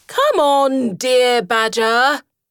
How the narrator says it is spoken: shouted Rat

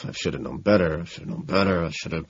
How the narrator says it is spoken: I'm utterly devastated and murmuring robotically to myself

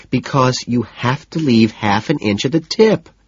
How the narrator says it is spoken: she says, her voice rising, her patience shot

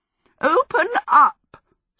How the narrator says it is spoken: Sophie cackled

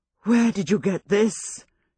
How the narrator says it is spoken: she demanded in a low, emotional voice

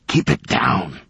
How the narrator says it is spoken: hissed

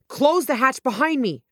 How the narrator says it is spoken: I yelled

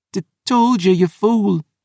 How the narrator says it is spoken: groaned

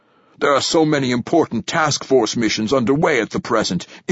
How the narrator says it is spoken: says Lourdesami, his voice urgent

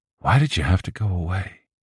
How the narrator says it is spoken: smiling, saying very softly

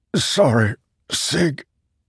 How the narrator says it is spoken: Leighton wheezed

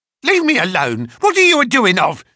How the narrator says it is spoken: she screeched

